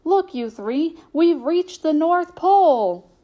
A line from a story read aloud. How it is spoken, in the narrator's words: the conductor called out to them